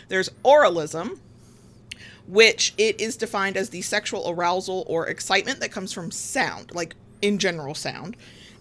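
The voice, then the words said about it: Southern American accent. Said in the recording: “somebody's going to tease me for my Southern accent.”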